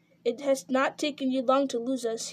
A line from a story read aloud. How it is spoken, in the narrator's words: he said